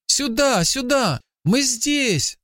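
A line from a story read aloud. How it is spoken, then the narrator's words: Boy shouting. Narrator (Russian): закричал мальчик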